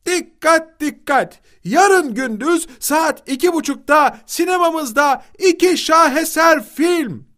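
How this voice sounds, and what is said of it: Shouting announcement. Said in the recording (Turkish): “avluda dolaşarak bağırmaya koyuldu”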